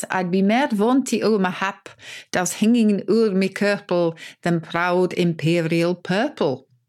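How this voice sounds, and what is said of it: Poor attempt at Scottish accent. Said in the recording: “I'm not going to be able to do the Scottish accent ... I didn't know Burns was Swedish.”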